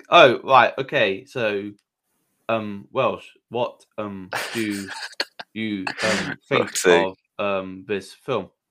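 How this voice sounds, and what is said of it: Imitates another person's voice. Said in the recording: “let's do the whole Jeff Goldblum impression... that's uncanny.”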